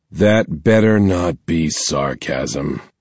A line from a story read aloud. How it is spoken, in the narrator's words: my dad said in a tired voice from the monitor on the wall of Osaria's office, where his face crackled in by remote feed